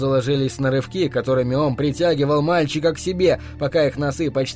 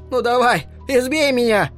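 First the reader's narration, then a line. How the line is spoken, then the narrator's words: Shouting. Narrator (Russian): крикнул он Хэлу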